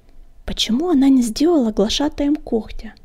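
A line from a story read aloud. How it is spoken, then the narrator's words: Whispered question. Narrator (Russian): шепотом спросил огонек у клубка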